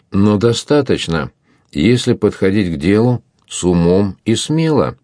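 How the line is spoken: Plain. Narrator (Russian): сказал Лоран

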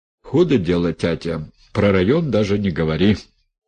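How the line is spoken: Grumbled. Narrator (Russian): пробурчал Митька

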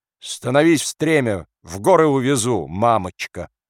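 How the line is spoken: Sudden shout. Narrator (Russian): Вдруг крикнул, как бы разгоняя дурные мысли

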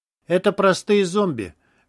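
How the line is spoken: Indifferent voice. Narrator (Russian): безразличным голосом сообщил Андрей

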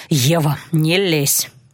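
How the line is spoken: Grumble. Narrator (Russian): буркнул Алан

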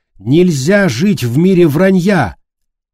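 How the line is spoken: Shout. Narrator (Russian): Она выкрикнула

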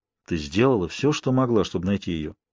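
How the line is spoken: Soft speech. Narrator (Russian): сказал мягко

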